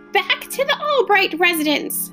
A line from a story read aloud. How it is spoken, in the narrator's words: shouted Gregor